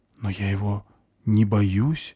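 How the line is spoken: Confused young woman. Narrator (Russian): растерянно сообщает девушка

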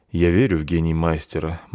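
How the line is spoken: Gloomy. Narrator (Russian): мрачно сказал пан

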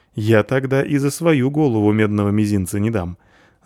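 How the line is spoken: Laughing. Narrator (Russian): засмеялся полчик

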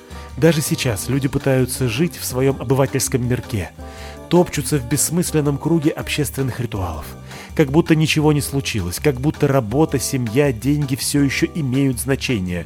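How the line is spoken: Sighing. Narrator (Russian): вздохнул Малдер

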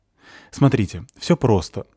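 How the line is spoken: Hurried explanation. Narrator (Russian): торопливо объясняет продавец

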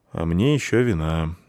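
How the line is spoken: Sigh. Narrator (Russian): вздохнул драматург

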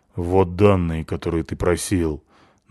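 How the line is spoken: Sulky grumble. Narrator (Russian): буркнул Павлик обиженно

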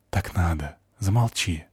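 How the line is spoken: Whisper. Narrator (Russian): прошептала она

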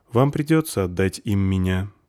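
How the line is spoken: Sad. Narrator (Russian): грустно сказала заверушка

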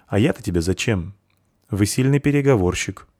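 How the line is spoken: Emotionless tone. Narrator (Russian): отметил кованый своим безэмоциональным тоном

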